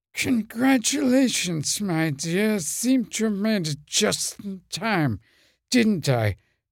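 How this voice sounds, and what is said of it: James Mason impression. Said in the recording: “that James Mason impression”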